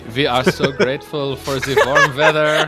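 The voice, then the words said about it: Awkward generic European accent. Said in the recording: “my awkward French, German, Dutch accent ... sort of like Habsburgian nobility. Just like generic European.”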